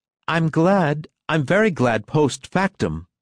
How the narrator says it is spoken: explained Lucian pleadingly

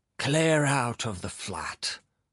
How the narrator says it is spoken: Philip Filipovich hissed cordially

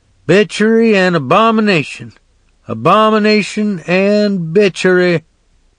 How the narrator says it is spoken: Uncle Doc hollering

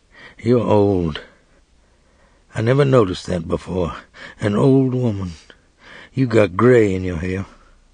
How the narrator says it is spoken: He said quietly

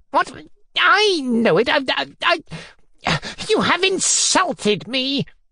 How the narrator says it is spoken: Foma Fomitch cried at once, spluttering with fury

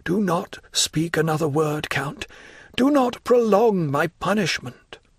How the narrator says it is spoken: exclaimed Morel in a low voice

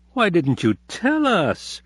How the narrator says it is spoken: they said indignantly

